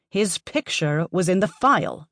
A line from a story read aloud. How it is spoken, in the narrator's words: she screeched